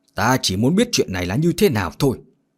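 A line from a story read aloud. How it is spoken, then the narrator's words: Loud shout. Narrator (Vietnamese): Trưởng môn hét lớn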